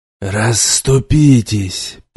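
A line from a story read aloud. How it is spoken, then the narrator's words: Grumbling. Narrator (Russian): проворчал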